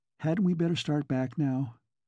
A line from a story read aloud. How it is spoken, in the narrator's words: She considered with wholesome fear the perils of meddling with other people's destinies, and she said timidly